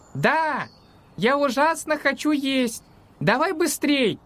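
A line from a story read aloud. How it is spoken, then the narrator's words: Shouting from kitchen. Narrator (Russian): Закричал с кухни Макс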